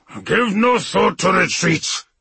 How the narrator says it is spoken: the old wolf snarled

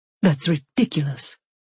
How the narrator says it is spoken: she snapped

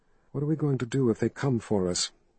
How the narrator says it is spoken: Kalin asked in a tense voice

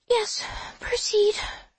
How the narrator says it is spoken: she whispers

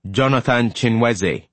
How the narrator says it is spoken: bellowed

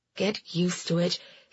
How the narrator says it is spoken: he muttered to himself, disgusted with his own weakness

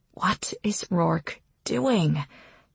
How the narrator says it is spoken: whispers

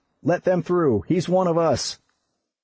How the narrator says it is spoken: the voice called out

